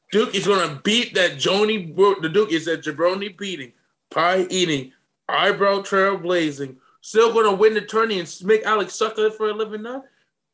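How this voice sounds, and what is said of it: Imitates another person's voice. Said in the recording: “my rock impersonation”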